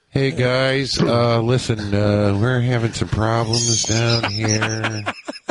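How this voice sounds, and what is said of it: Impression of Tony Shalhoub's engineer. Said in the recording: “Tony Shalhoub. ... The engineer, ... That's a great imitation. That's right on the money.”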